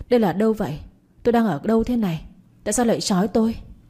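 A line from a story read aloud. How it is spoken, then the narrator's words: Trembling frightened question. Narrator (Vietnamese): Cùng lúc phát hiện ra hai tay của mình bị trói chặt, tôi run run hỏi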